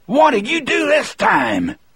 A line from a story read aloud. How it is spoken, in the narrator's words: Dean shouted at Percy